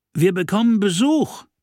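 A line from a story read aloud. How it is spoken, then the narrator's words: Called from below deck. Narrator (German): rief Jeffrey aus der Kajüte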